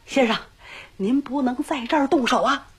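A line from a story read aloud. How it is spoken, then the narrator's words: Breathless, panting. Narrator (Chinese): 一个人气喘吁吁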